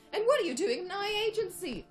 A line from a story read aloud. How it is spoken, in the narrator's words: Cyril shouted